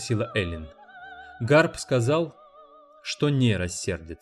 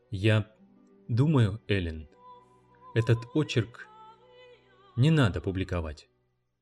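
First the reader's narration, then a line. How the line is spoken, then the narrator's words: Gentle. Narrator (Russian): он сказал ей мягко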